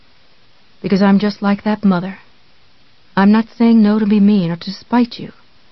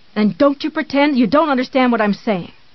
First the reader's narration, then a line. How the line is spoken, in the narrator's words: he shouted back